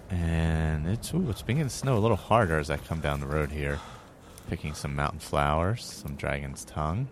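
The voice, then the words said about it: Out of breath. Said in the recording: “I'm out of breath, as you can hear.”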